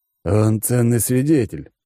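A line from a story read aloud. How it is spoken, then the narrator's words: Snort. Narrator (Russian): хмыкнул Алекс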